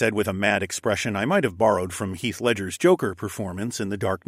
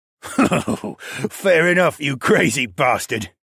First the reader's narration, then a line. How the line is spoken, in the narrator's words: Lerman said, with a foul-smelling laugh